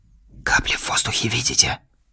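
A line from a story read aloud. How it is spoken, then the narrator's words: Quiet question. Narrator (Russian): тихо спросил Петюшин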